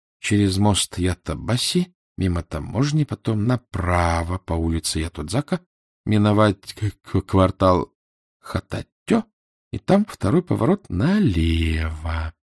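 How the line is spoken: Whispered while memorizing. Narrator (Russian): Эраст Петрович прошептал, запоминая

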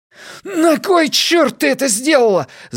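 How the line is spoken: Shouting. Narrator (Russian): закричал он, когда немного пришёл в себя

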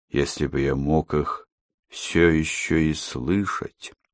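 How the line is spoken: Muttered. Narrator (Russian): пробормотал он

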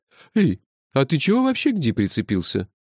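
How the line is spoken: Laughing. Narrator (Russian): рассмеялся Кофа

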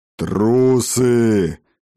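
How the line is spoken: Roaring dragon. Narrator (Russian): проревел дракон

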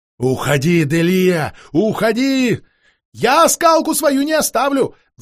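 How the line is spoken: Playful shout. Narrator (Russian): задорно крикнула в ответ та

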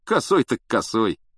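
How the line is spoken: Wry snort. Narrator (Russian): хмыкнул Стэн

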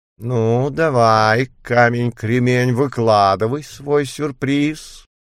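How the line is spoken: Satisfied purr. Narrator (Russian): голосом сытой Багиры промурлыкала она

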